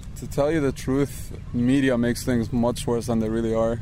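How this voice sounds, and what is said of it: Lebanese-accented English. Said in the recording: “Do you have an accent? ... Yes, I do. ... Lebanon.”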